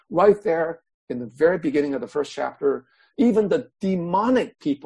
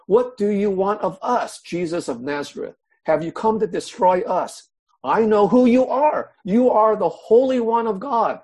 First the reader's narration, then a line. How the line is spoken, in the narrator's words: a man in their synagogue who was possessed by an impure spirit cried out